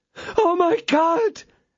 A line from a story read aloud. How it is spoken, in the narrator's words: exclaimed she